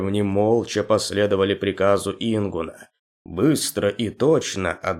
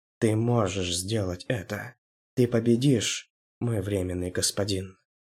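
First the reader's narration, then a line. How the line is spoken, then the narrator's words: Whisper. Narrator (Russian): прошептала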